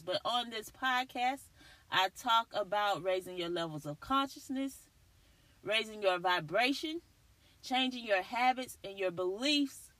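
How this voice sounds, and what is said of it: Scratchy voice. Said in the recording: “excuse my voice today. It's a little scratchy... this pollen in this Texas weather is ridiculous... it's getting to my throat chakra”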